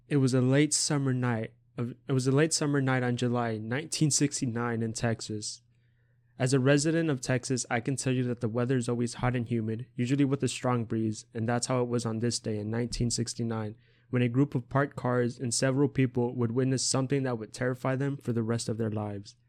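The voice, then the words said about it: Dramatic narrator voice. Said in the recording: “I'm going to do a little bit of a narrator voice here ... Is that a good narrator voice? I don't know.”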